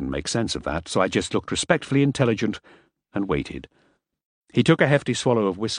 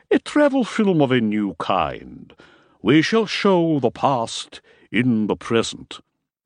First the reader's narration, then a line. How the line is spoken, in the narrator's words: intoned solemnly